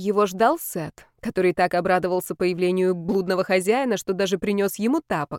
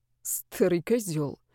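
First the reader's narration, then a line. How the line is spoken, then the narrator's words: Barely audible grumble. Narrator (Russian): пробурчал едва слышно Яр ему вслед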